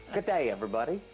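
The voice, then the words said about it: Odd put-on accent, maybe English. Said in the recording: “Are you English? ... I don't know what that accent was”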